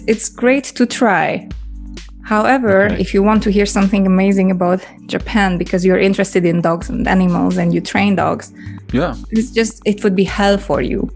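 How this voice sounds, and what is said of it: Hungarian accent. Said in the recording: “I do have my Hungarian accent, and like 4 years in England did me nothing.”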